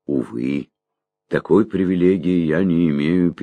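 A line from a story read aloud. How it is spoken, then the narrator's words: Sad sigh. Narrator (Russian): печально вздохнул Лонли Локли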